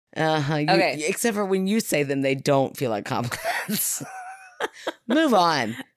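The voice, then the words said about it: Southern American accent. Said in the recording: “Your Southern really slips out a lot more than mine does ... you pull it off like it's nothing”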